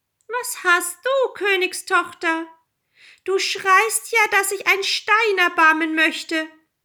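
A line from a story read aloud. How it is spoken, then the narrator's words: Call. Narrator (German): rief ihr jemand zu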